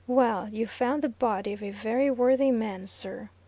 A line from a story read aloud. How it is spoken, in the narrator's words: remarked Fosdick gravely